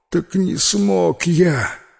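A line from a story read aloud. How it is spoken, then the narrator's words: Barely audible breath. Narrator (Russian): еле выдохнул тот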